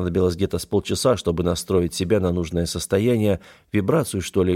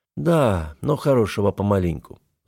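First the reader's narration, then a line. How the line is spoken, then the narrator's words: Sigh. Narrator (Russian): вздохнул я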